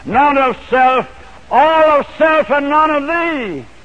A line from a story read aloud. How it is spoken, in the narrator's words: proud answered